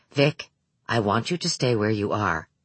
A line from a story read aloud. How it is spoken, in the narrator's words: Hutter said quietly, patiently